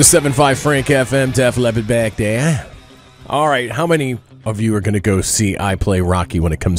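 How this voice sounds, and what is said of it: Usual voice. Nothing is said of it.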